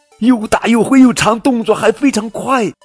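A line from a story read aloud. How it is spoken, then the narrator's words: Shouting together. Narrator (Chinese): 海莉和水獭一起喊起来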